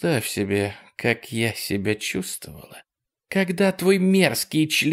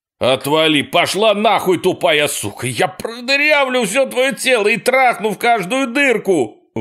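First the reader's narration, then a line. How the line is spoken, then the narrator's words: Screaming. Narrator (Russian): вопил он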